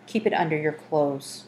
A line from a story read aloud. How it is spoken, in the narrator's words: Horatio whispered